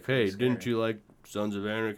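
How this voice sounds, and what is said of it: Imitates another person's voice. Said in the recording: “That's my Ron Perlman impression. I'm working on it. It's coming along.”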